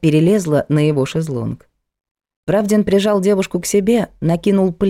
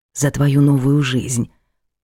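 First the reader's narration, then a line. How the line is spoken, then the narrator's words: Whispered. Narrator (Russian): прошептал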